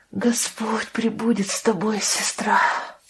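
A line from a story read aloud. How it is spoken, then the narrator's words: Whispered farewell. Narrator (Russian): прошептала Лия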